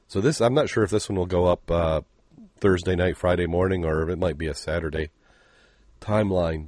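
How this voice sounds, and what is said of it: Deep, hoarse, sick-sounding voice. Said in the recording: “you're downright miserable there ... you can hear ... you end up with that deep radio voice ... I'm going to hack all over this”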